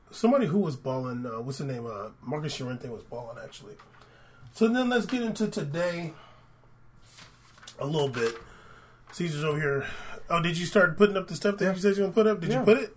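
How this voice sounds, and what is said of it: Slightly hoarse, congested voice. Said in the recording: “excuse my voice. I'm getting over a slight cold.”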